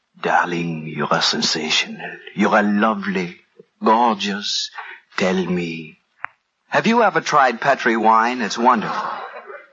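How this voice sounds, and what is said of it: Whispered put-on French accent. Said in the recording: “whispering in my fine French accent,”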